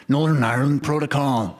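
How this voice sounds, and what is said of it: Bad impression of a deep male voice. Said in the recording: “in like a bad impression of Liam Neeson ... it's much sexier”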